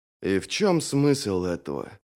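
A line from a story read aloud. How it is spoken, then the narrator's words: Muttered. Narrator (Russian): пробормотал Брент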